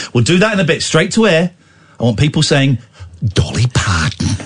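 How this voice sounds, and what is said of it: Usual voice. Nothing is said of it.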